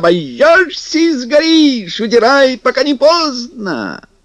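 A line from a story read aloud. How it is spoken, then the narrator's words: Wailing at full voice. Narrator (Russian): вопил, не жалея голоса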